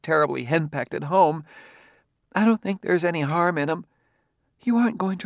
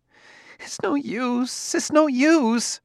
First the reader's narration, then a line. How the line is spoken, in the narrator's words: she cried